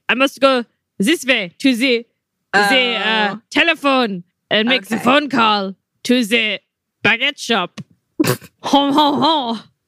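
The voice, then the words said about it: Exaggerated bad French accent. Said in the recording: “Bad French accents ... It was a great French accent.”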